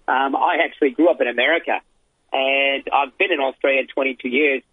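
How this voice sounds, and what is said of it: Slight accent. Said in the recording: “you can tell I have a bit of an accent”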